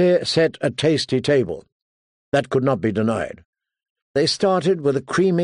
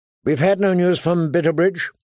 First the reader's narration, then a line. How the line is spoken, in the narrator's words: she asked anxiously